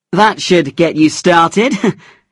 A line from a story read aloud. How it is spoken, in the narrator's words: he laughed